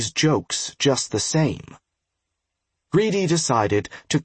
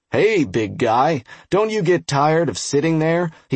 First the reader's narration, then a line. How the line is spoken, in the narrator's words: said in a jolly voice, chuckling at his own unfunny joke